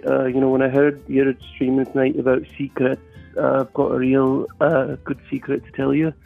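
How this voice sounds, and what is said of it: Scottish accent. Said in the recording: “It's a Scottish accent.”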